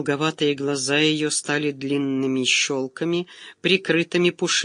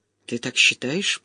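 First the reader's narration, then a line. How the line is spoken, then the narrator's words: Muttered. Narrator (Russian): пробормотала Марьяна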